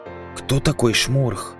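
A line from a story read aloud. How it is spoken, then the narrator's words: Whispered question. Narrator (Russian): спросил я соседнего разбойника шепотом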